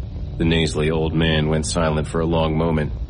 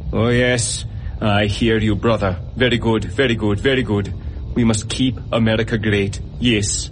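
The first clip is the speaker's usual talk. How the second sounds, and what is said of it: Thick cartoonish fake Pakistani accent. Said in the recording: “He spoke in a thick, cartoonish Pakistani accent ... deepening the fake accent”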